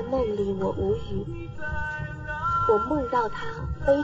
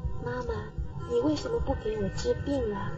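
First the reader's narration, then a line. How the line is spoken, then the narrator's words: Soft question in ear. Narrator (Chinese): 他趴在我的耳边轻声问我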